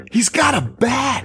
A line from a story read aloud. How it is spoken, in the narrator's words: Parker yell